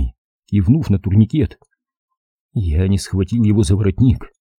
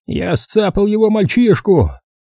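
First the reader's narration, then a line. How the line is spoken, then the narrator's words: Shout. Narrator (Russian): крикнул он непонятно кому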